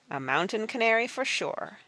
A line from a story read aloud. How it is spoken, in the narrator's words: said Praiseworthy